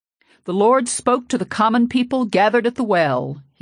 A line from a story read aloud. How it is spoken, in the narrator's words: he said at last, in his old booming voice that allowed no corner for doubt